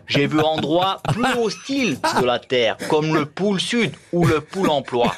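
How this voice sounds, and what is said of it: Imitates another person's voice, accented. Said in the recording (French): “Mike Horn aussi vous a laissé un message, le célèbre aventurier Mike Horn ... moi aussi j'ai accent”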